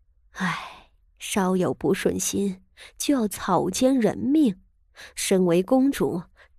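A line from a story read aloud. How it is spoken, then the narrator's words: Repeated shocked sighs. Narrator (Chinese): 连连感叹道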